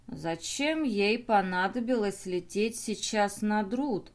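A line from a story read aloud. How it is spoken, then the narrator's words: Thoughtful drawl. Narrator (Russian): задумчиво протянул Драмокл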